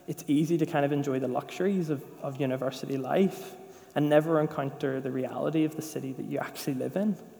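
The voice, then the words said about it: Northern Irish accent. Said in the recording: “good in a Northern Irish accent when you're living in England. Literally no one understands what you're saying.”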